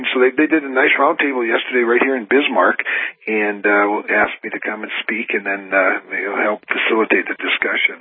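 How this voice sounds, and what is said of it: Raspy voice. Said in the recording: “my raspy voice this morning”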